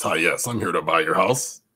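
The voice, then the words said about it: Put-on professional phone voice. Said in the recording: “Put on my professional voice.”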